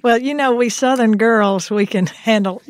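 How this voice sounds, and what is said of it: Exaggerated Southern US accent. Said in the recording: “I'm going to put on my most Southern accent now ... I thought that was pretty Southern”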